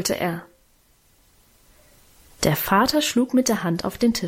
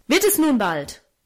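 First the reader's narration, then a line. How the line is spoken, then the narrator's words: Angry shout. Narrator (German): rief er zornig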